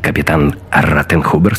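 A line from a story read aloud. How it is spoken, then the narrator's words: Curt, clipped. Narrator (Russian): сказал Гитлер отрывисто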